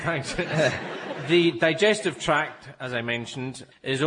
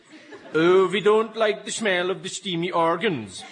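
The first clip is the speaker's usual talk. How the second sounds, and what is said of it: Mock Swedish accent. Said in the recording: “as the cows might say in their Swedish accent”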